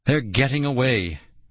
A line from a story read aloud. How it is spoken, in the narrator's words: I choked out